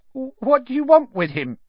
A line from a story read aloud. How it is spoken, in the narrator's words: said Ernie, in a quavering voice